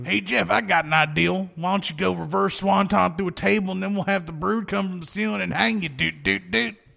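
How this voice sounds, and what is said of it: Imitates another person's voice. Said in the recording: “impersonation”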